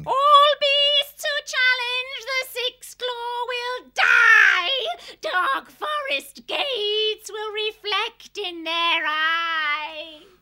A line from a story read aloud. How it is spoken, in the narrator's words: Nightshade was still chanting and wailing